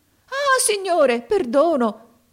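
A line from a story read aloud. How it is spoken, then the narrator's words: Merchant shouting. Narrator (Italian): gridò il mercante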